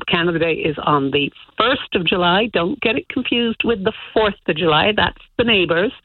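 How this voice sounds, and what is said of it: Mixed Canadian accent. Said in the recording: “accent might give me away, you know, the accent's a good old mix of everything ... a Canadian in Cork”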